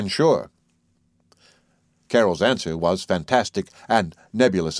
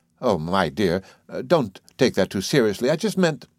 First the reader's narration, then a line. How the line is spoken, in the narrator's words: the old squirrel-like Vida darted out and cried